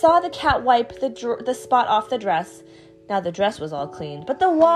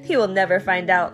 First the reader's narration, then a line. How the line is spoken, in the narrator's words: laughed the Cat in the Hat